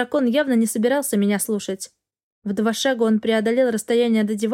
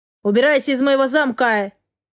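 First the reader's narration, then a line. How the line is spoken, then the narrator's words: Barked. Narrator (Russian): рявкнул Астел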